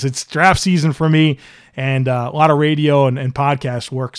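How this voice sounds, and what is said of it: Strained, worn-out voice. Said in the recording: “I feel like I'm losing it a bit here ... my voice was a little bit inconsistent at times”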